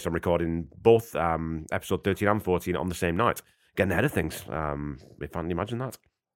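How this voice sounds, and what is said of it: Hoarse, congested voice. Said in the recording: “really awful congestion ... a really, really sore throat, like I'd swallowed a bunch of razor blades ... you can still hear it in my voice ... I'm much improved now”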